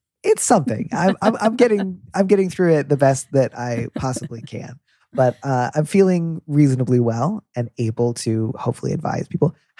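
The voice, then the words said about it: Stuffy, congested nasal voice. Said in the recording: “sounds really stuffy. You're right. I'm stuffed up. I have a cold. ... all my B's sound like D's and vice versa”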